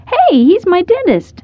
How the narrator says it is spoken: Evan called out

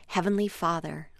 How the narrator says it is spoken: offered quietly

